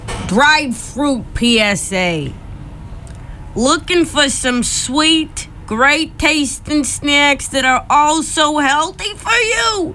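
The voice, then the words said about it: Reading in a put-on accent. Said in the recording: “reading our PSA in a different accent.”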